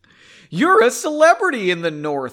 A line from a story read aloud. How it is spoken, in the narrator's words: Henry exclaimed